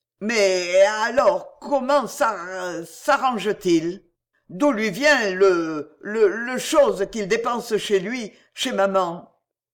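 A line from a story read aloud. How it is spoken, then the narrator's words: Emotional stammering. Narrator (French): Les mots qui refusaient de sortir, dans l'émotion, secouaient le brave garçon, le jetaient balbutiant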